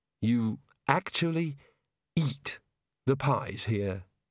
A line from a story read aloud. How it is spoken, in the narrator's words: he said mournfully